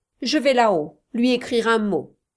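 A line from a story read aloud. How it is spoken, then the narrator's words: Curt, sharp tone. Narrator (French): dit Munden d'un ton assez cassant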